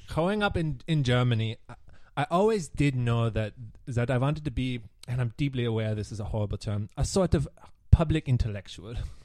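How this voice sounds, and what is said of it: Put-on German accent. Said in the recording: “Let me try the accent. ... Or Yulia can just do it because she is German.”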